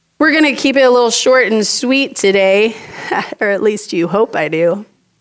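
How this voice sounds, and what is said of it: Strained, unusual-sounding voice. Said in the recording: “my voice isn't really cooperating with us today ... I don't normally sound like this”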